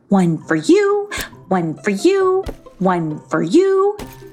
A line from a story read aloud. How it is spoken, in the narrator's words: she said merrily